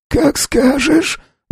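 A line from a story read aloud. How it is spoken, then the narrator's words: Hoarse whisper. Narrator (Russian): прошептал сиплый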